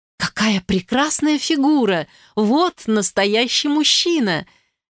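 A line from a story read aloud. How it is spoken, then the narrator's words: Delighted woman exclaiming. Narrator (Russian): С сияющими глазами воскликнула Берта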